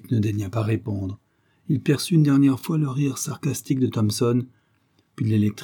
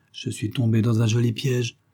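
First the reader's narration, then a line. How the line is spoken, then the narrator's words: Prisoner grumbling through teeth. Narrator (French): grommela le prisonnier entre ses dents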